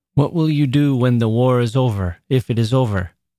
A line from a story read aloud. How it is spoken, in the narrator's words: he asked me